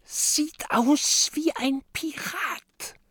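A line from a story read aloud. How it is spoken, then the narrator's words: Whisper. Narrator (German): flüstert Mathilda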